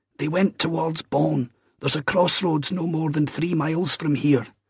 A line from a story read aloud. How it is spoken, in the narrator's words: he added, now trying urgently to be helpful